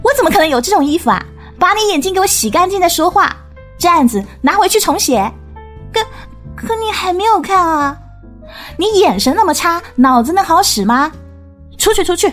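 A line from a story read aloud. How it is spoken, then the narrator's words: Loud scolding. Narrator (Chinese): 何露大声斥喝说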